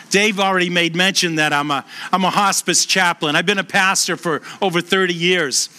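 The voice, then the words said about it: Boston accent. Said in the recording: “I was born and raised in Boston. You can tell by the accent.”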